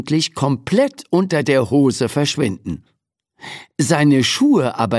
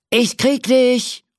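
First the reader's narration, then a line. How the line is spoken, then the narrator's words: Calling while running. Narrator (German): ruft der Cowboy mit dem Lasso und rennt hinter der Indianerin her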